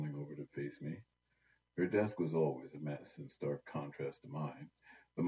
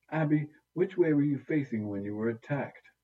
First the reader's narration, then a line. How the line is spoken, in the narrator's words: Eliza groaned and asked in my place